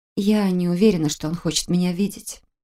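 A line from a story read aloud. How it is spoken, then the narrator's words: Quiet confession. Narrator (Russian): призналась я тихо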